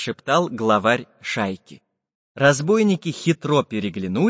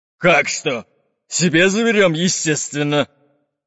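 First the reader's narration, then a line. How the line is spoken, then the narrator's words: No. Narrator (Russian): Грозно топнул по ледяному полу пират Буль-Буль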